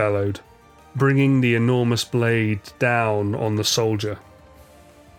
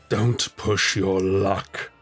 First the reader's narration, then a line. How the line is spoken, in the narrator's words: Sephiroth growled